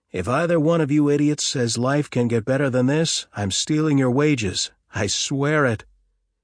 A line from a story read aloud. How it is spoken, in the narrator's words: he shouted at his pursuers